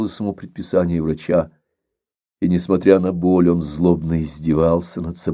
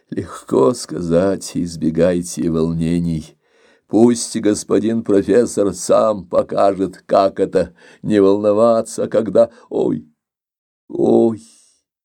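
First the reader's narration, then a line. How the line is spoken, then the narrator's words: Old man's loud pained moaning. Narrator (Russian): Старик громко стонал, так жгуче вонзались невидимые когти в истерзанное тело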